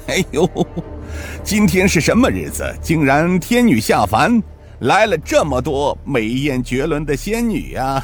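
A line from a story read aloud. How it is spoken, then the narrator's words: Hearty laughing. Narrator (Chinese): 童老怪哈哈笑道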